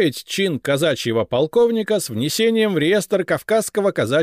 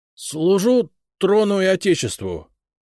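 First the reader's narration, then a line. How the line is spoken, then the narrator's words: Hoarse with emotion. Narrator (Russian): хриплым от волнения голосом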